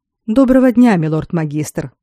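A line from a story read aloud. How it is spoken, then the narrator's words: Dry greeting. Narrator (Russian): сухо поприветствовал он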